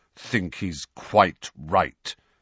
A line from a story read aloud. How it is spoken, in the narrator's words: said Sirius through clenched teeth